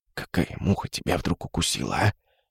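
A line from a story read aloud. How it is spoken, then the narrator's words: Faint terrified broken voice. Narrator (Russian): еле слышно спросил, прерывающимся от ужаса голосом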